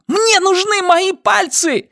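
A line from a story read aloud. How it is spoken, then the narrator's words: Shout. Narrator (Russian): закричала она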